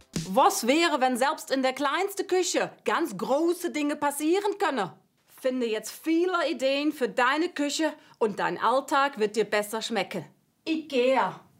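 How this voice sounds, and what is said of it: Put-on Dutch accent in German. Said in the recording (German): “Sie soll einen IKEA-Werbespot neu vertonen mit niederländischem Akzent ... Ich hoffe, irgendjemand erkennt das als niederländischen Akzent ... Eher holländisch irgendwie”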